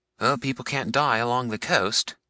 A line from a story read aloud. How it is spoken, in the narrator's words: said Mr